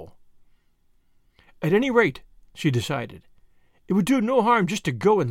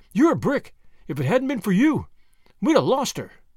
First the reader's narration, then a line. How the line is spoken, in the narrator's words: cried Tuppence